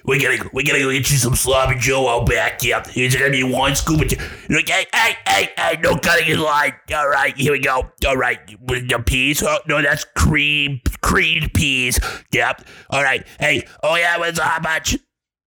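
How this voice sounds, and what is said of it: Impression of a lunch lady. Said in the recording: “do a impression of a lunch lady”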